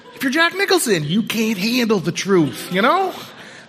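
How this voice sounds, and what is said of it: Poor Jack Nicholson impression. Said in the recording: “terrible Jack Nicholson impression”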